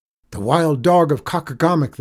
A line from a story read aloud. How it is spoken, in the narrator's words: cried